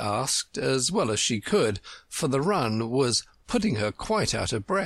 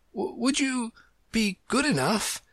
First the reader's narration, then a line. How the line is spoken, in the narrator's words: Alice panted out, after running a little further